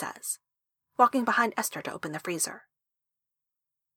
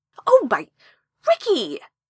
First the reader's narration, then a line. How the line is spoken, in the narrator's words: Esther yelps